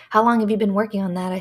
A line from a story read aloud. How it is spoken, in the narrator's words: I said with a spiritless chuckle